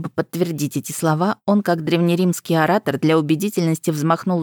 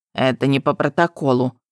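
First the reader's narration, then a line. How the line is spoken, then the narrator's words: Grumbling. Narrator (Russian): проворчала Апалал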